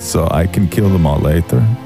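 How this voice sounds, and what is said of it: Italian-accented vampire voice. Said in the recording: “why you're doing an Italian accent ... Roz the Italian vampire”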